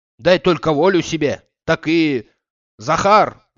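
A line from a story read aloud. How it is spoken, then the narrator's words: Shouting. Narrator (Russian): закричал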